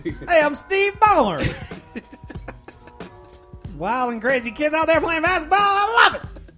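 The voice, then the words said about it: Steve Ballmer impression. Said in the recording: “his Ballmer impression”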